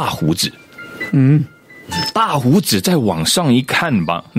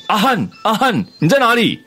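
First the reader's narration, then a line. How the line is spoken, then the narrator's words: Calling out. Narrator (Chinese): 朋友又在叫他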